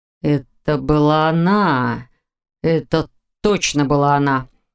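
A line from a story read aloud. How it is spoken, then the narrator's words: Near growl. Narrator (Russian): почти прорычал Виктор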